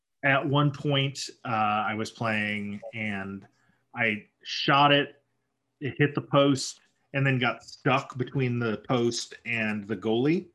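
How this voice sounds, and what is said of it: Hoarse, strained voice. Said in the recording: “I'm losing my voice. I didn't bring a water bottle into the studio this time.”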